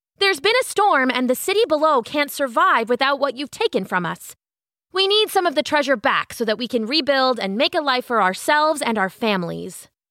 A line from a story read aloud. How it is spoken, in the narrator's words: shouted